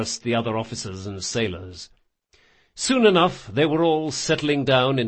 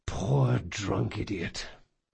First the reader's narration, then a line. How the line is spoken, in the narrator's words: he sighed